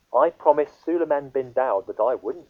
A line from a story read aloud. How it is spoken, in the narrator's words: said the butterfly